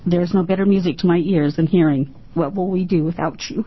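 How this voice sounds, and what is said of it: Emotional, choked-up voice. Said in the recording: “I get emotional about this, I'm sorry.”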